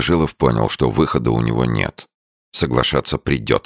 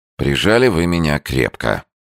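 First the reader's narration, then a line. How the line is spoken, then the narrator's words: Sighing. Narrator (Russian): Новожилов сказал, вздохнув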